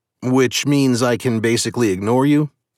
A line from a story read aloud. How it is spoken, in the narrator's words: I asked